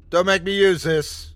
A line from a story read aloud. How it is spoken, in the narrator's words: I yelled at it again